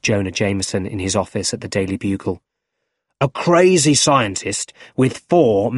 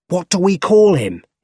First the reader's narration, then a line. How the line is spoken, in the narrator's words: He shouted